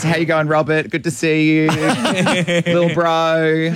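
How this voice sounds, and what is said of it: Bindi Irwin impression. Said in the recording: “you did an impersonation of Bindi Irwin? ... it was a very good one”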